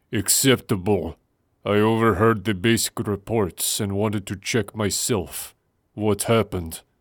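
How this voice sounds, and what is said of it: Deep voice with Russian-like accent. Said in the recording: “a clear yet not overly stereotypical Draxian accent, though James would probably have described it as Russian, in his deep voice, barely muffled by the gas mask”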